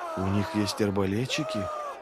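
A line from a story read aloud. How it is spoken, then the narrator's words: Stunned mumble. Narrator (Russian): ошеломленно промямлил кто-то из придворных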